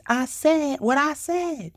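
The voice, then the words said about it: NeNe Leakes impression. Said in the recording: “in my NeNe Leakes voice”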